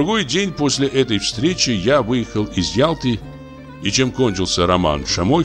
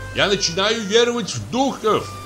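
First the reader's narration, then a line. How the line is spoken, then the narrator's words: Shouting. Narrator (Russian): крикнул он мне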